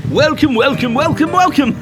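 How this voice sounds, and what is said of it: Turkey-like comic voice. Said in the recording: “you sound like a turkey”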